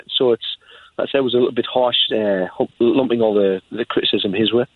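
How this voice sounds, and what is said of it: Sunderland accent. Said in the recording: “where you're from, everyone can tell by your accent. Sunderland”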